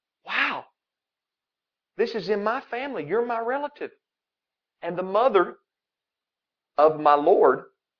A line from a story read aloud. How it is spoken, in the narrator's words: she's exclaiming